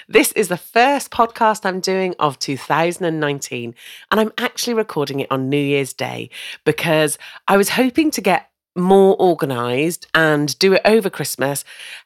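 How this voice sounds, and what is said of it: Voice slightly off, congested. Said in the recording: “you might be able to hear from my voice that it's a little bit different because I've had a terrible cough and cold”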